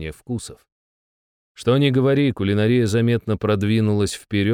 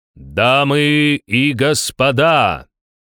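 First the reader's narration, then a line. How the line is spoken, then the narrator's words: Booming announcer voice. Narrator (Russian): прогремел голос главного распорядителя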